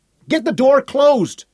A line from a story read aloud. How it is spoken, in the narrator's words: Sally Ann screamed